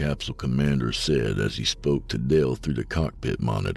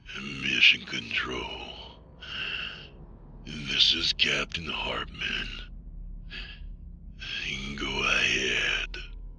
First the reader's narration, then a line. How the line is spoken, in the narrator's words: Dale hissed in a slow, raspy voice